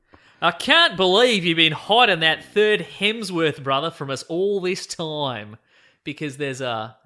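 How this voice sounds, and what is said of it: Put-on Australian accent. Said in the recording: “he's written it in what I'm going to assume is offensive Australian accent... I'll do it in Australian accent.”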